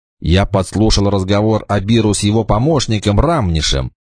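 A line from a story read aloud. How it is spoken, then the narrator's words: Plain. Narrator (Russian): сказал идский рыцарь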